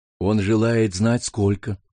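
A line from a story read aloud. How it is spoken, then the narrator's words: Calm. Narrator (Russian): Спокойно сказал Ким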